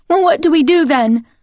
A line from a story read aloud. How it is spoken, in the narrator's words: Emily cried out in frustration